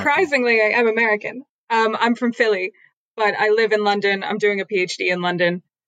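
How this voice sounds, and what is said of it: Transatlantic-sounding American accent. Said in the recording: “tell from your voice you're already converted ... That transatlantic accent.”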